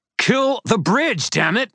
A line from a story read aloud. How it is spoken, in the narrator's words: I shouted back